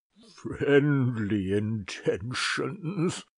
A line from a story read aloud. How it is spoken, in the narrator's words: sneered the archdeacon